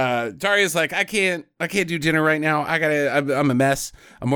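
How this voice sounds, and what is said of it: Usual voice. Nothing is said of it.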